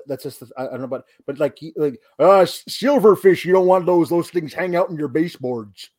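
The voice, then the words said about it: Imitates another person's voice. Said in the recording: “it should be coming out of the mouth of Jesse the Body Ventura ... that impression ... That's pretty good considering you've never done it before.”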